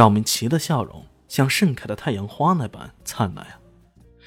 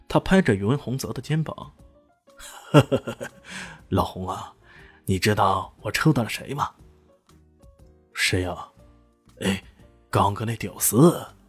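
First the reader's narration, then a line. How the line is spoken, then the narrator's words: Bursting into laughter. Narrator (Chinese): 张明奇 忍不住大笑道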